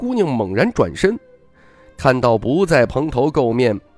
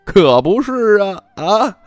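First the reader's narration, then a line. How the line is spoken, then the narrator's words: Relieved, bright, cheerful. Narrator (Chinese): 小姑娘终于放下心，笑容灿烂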